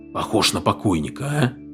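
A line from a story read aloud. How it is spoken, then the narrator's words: Whispered. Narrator (Russian): прошептал Фред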